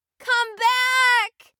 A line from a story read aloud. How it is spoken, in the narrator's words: screamed